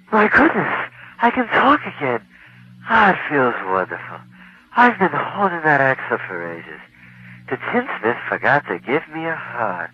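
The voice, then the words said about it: Tin Man character voice. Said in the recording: “my impersonation of the Tin Man”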